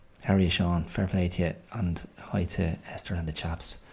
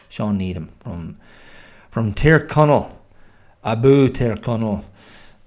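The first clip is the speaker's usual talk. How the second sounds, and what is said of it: Botched attempt at Irish Donegal accent. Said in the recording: “Oh my God, that was heinous. I don't know what accent I slipped into there, but it wasn't a bloody Donegal one”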